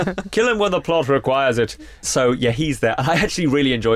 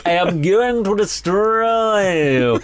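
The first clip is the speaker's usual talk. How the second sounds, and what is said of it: Imitates another person's exaggerated accent. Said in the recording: “extraordinary accent ... His accent's a little like this”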